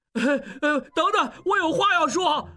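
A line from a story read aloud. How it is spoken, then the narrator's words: Loud pleading. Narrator (Chinese): 小栓大声求饶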